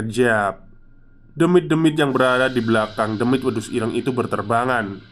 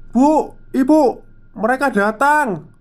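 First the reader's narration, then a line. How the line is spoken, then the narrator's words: Shouting. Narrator (Indonesian): teriakku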